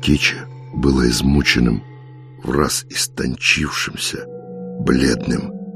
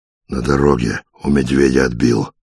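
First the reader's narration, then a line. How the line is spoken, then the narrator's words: Hoarse, still shaken. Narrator (Russian): хрипло ответил немного опомнившийся Вольга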